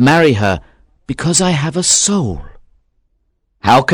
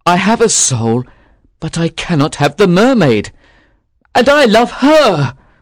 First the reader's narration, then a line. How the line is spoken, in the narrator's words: he cried